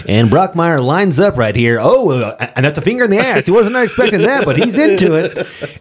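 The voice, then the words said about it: Old-timey baseball announcer voice. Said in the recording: “he talks in that baseball old timey announcer voice at all times, and so he'll outwardly narrate sometimes”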